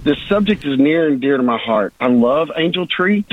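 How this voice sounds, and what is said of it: Choked-up, emotional voice. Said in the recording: “I'm getting a little choked up here.”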